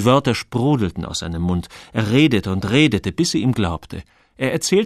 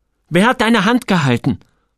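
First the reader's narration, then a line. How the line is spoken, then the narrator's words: Angry. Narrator (German): hörte Joel, dass seine Stimme wütend klang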